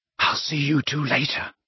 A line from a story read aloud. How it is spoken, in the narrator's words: said Harry under his breath